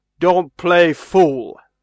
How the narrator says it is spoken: said Barnes roughly

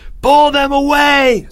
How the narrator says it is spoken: screamed Leo

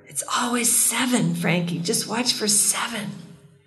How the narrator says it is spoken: Martin whispered in his ear

